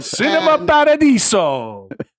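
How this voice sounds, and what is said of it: Exaggerated Italian accent. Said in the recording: “awesome Italian accent”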